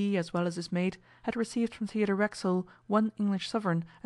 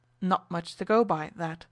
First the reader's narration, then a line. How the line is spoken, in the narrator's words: exclaimed the other man curtly